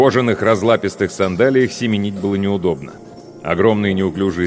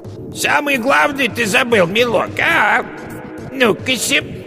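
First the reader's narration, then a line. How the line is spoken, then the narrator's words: Witch's falsely thin call. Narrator (Russian): яга позвала фальшиво тонким голосом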